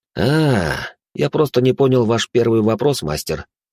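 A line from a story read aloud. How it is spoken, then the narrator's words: Sigh. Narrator (Russian): вздохнул я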